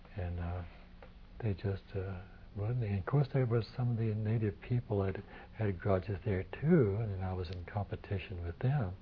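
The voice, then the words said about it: Oklahoma accent. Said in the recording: “I was an Okie ... my accent”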